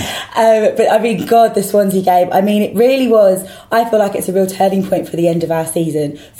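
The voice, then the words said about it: Hoarse, deeper voice from lost voice. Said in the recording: “I lost my voice at the weekend from screaming at White Hart Lane on Saturday ... it's only just coming back. So I sound a little bit more manly than I think I would like.”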